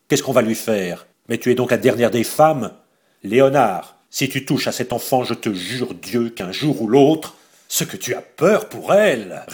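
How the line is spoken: Sneering. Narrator (French): ricana Joséphine Balsamo

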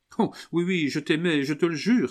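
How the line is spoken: Exclaim. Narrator (French): s'écria Camille

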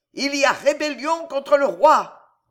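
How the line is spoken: Sergeant bellowing. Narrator (French): vociférait le sergent

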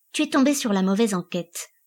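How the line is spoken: Cold. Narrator (French): dit-elle froidement

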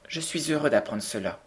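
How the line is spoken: Plain. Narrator (French): dit Cédric

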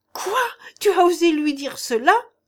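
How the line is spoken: Exclaiming. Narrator (French): s'écria Janille

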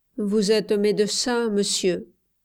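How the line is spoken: Sad. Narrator (French): Puis il dit tristement

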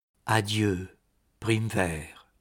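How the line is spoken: Murmuring. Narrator (French): murmura-t-il

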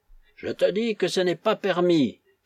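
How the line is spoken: Shouting again. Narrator (French): cria de nouveau Nazarov

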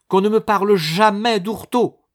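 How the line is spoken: Exclamation. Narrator (French): s'écria Madame Barinck

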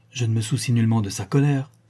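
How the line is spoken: Exclaiming. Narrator (French): s'écria Catherine

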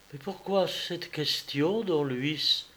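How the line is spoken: Unsteady voice. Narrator (French): demanda-t-elle d'une voix mal assurée

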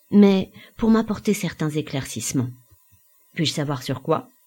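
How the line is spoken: Calm, deliberate. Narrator (French): articula calmement Jean

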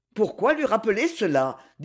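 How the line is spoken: Stern tone. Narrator (French): dit le docteur d'un ton sévère

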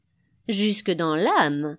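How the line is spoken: Said laughing. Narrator (French): dit en riant toujours l'Afcadio

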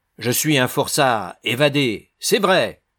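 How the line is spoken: Man exclaims. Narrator (French): s'écria-t-il

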